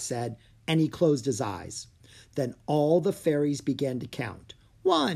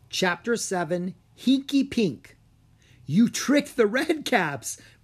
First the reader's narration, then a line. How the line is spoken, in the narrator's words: Breen said, giggling